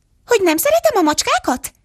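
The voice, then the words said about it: Shrill, piercing squeaky voice. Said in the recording (Hungarian): “Visított az egér éles, metsző hangon.”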